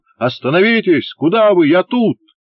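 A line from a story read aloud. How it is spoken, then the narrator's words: Shouting. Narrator (Russian): даже крикнул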